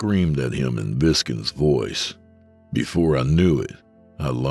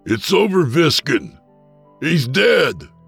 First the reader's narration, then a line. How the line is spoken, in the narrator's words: I yelled out